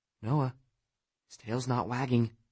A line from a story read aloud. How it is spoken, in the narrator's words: Abby said under her breath